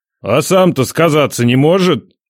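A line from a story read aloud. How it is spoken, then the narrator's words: Grumbling. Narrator (Russian): Проворчал Ядрей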